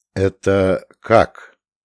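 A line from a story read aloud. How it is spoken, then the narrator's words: Strained, forced out. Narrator (Russian): выдавил Гарин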